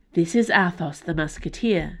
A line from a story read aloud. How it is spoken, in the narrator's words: said gravely